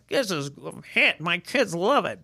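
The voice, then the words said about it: Imitates another person's voice, poorly. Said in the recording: “That's a bad impersonation.”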